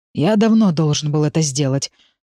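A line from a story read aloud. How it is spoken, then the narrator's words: Father's dreadful hollow voice. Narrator (Russian): страшным глухим голосом произносит отец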